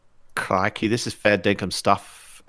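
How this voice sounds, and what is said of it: Poor put-on Australian accent. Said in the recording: “that's got a little bit of Irish in there ... You can't even do a bad Australian accent.”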